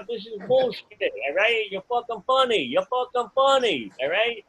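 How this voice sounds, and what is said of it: New York character voice. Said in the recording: “I got like too many bits where I do a New York character”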